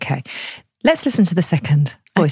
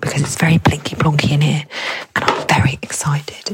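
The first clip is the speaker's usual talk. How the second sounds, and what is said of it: Whispering. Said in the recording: “I'm whispering”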